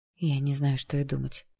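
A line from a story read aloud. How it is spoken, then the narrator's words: Stunned muttering. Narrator (Russian): пробормотала Джесс потрясенно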